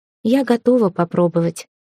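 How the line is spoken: Said quietly. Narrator (Russian): сказала тихо

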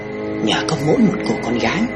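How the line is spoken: Mother muttering. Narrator (Vietnamese): Mẹ lẩm bẩm

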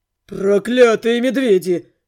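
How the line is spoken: Growling. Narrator (Russian): рычал Белый

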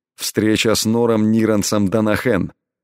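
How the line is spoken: Indifferent tone. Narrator (Russian): безразличным тоном ответил Элай

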